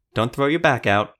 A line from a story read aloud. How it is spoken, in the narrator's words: Alu said with a laugh